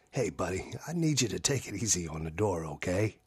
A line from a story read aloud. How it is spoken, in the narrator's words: He worked to keep his voice low and his tone bright